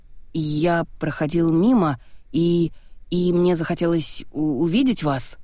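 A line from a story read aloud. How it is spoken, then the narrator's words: Stunned, strained. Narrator (Russian): Сраженный таким приемом, Виржил с трудом выдавил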